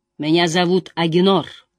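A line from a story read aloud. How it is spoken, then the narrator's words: Plain, old man. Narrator (Russian): сказал старик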